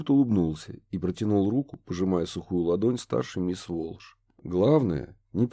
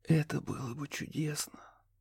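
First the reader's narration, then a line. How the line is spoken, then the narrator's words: Whisper. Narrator (Russian): прошептал Риана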